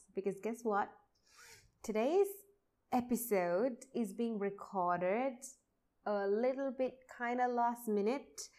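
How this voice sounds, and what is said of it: Energetic, pumped-up voice. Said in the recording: “I don't know if you can tell it in my voice, but I am feeling super duper pumped ... I felt so energetic”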